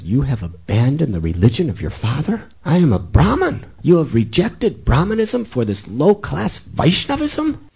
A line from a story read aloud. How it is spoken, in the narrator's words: Hari Ram started screaming at his father